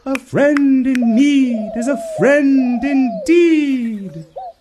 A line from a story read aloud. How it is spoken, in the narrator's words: cried the king